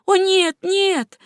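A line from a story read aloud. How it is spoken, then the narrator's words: Exclaimed. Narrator (Russian): воскликнула она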